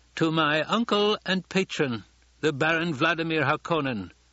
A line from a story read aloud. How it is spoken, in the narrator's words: Fade Rautha shouted